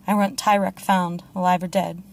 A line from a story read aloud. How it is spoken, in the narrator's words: Tyrion said curtly